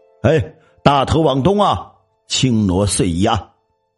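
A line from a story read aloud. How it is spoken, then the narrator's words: Loud ritual shout. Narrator (Chinese): 喊丧人 大声喊道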